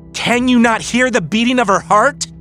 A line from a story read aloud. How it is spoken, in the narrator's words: He shouts